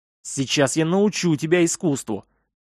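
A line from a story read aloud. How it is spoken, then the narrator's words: Angry muttering. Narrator (Russian): Зло пробормотал Толлиус невидимому противнику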